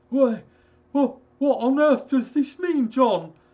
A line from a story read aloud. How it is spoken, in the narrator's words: stammered